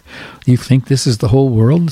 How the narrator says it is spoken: said the mother

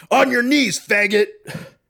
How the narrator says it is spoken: one of the guys shouts out

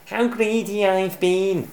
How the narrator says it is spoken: spluttered Bruce with a giggle

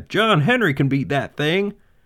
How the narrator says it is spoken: All the men cried

